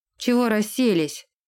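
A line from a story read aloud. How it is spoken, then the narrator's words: Barked. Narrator (Russian): рявкнул Дерек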